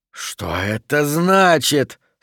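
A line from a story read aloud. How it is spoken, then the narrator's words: Hissing whisper. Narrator (Russian): свистящим шепотом спросил он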